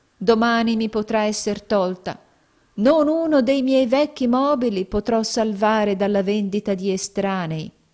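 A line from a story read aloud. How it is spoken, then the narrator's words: Sighed. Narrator (Italian): sospirò il poveretto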